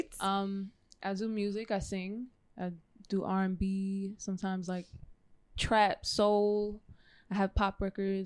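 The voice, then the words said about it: New York accent. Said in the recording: “I'm from New York. That's why you hear the foreign accent.”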